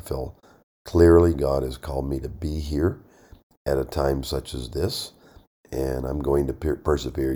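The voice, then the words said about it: Voice sounds rough, not normal. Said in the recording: “my voice is not normal, just allergies here ... I just sound bad ... that doesn't help my voice a whole lot”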